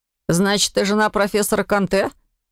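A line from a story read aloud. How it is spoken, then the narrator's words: Incredulous scoff. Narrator (Russian): недоверчиво хмыкнул парень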